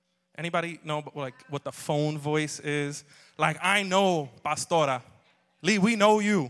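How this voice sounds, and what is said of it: Usual voice. Nothing is said of it.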